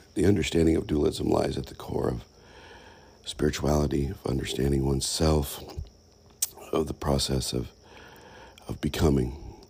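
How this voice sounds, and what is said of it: Hoarse, raspy voice. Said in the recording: “forgive my voice. I'm still a little hoarse ... the raspiness of my voice and the occasional cough”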